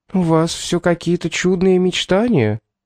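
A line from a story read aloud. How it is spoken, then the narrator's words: Uncertain young woman. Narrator (Russian): ответила девушка неуверенно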